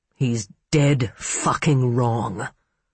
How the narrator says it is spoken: Mitch growled

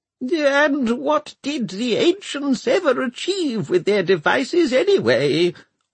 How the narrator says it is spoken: whined Arkengarth

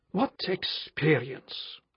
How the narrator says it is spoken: asked Armand, his brown eyes brightening angrily

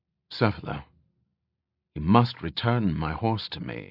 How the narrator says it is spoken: he said quietly

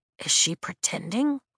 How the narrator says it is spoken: Riddick whispers

